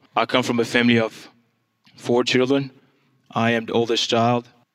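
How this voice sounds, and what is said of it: Congolese accent in English. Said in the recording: “I am from the Democratic Republic of Congo... That's where the accent is from”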